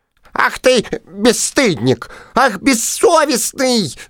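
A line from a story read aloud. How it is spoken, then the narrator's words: Many mosquitoes squeaking uproar. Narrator (Russian): запищали все комары разом и подняли ужасный гвалт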